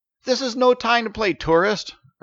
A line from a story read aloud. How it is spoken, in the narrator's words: Ertish shouted